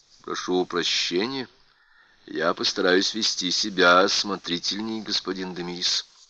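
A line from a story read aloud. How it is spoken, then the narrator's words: Calm reassurance. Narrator (Russian): спокойно заверил его Ларри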